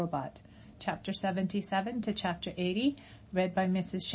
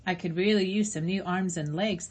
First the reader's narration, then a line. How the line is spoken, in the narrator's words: the robot chuckled to her own bad joke